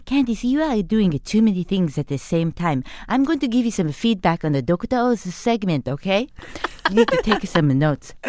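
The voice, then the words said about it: Imitated Japanese mother's accented voice. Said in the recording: “the best Japanese mom impersonator in the world... Will you do this entire interview in that voice?”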